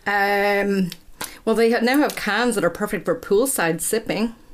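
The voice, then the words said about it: Put-on American accent. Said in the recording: “are you going to do this whole episode in an American accent?”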